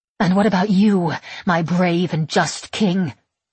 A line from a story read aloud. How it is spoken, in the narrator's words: I snarl